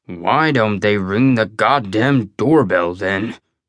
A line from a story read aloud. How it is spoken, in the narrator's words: Belsky grumbled